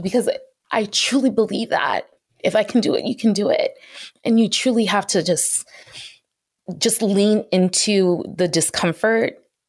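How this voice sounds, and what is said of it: Emotional, voice near tears. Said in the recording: “i'm getting emotional”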